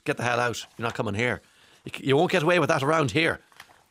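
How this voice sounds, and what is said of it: Put-on Norwegian accent. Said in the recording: “is what they said to him in a Norwegian accent.”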